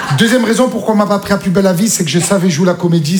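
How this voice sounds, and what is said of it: Marseille French accent. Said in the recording (French): “j'avais l'accent marseillais ... Je viens de Marseille.”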